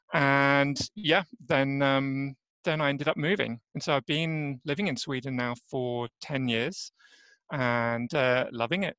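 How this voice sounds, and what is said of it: English accent. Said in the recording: “as you might hear from my accent, I'm actually an Englishman, so I'm not native Swede”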